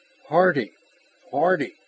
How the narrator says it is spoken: That voice, which carried the snap of command whenever it was addressed to Ross, was now warmly human

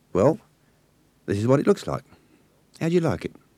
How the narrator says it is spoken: smiled weakly

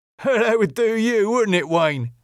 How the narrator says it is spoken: said Jimmy with a chuckle

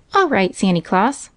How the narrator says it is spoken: cried Johnny

